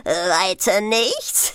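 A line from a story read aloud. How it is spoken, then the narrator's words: Laughing wizard. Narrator (German): lachte der Zauberer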